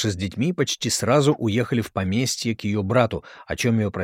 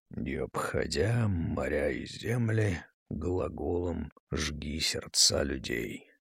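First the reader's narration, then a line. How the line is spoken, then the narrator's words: Muttering under breath. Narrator (Russian): бормотал себе под нос Жуковский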